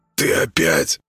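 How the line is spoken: Barely audible hoarse wheeze. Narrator (Russian): еле слышно просипел сельский голова

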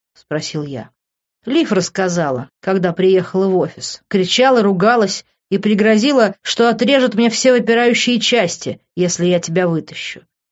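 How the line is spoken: Calm explanation. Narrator (Russian): спокойно объяснил друг

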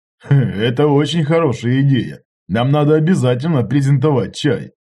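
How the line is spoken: Laughing. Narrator (Russian): тоже засмеялся Иваныч

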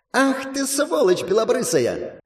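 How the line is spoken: Shriek. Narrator (Russian): Взвизгнула она

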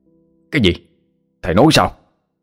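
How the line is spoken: Asking almost shouting. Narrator (Vietnamese): A Khắc cho hỏi như quát lớn

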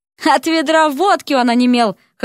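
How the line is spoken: Short laugh. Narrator (Russian): хохотнул император

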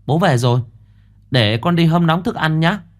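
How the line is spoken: Excited child. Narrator (Vietnamese): Thằng cu từ trong nhà chạy ra mà hớn hở

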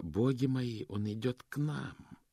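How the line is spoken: Muttered. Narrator (Russian): Госпожа ласка пробормотала

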